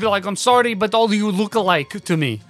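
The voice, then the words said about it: Put-on vampire accent. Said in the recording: “a vampire accent? ... Because she has a vampire accent.”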